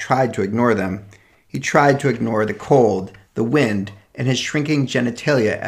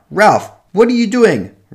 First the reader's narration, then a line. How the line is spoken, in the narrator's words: Miss Krasner yelled out